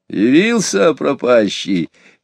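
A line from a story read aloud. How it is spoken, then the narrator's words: Cheerful. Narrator (Russian): весело промолвил Иван Захарыч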